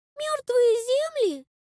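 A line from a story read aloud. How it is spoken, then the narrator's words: Boy's squeak. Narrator (Russian): Пискнул мальчуган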